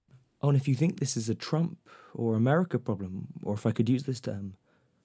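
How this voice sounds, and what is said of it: Usual voice. Nothing is said of it.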